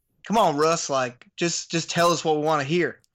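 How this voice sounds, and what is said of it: Put-on Southern accent. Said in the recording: “the Southern accent can be nice, but it's just he sounded like.”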